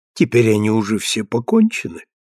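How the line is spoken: Cheerful and trusting. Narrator (Russian): отвечала она весело и доверчиво

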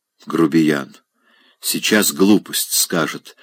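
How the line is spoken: Whisper. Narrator (Russian): шептала она Райскому

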